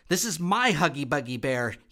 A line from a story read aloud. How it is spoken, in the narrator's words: shouted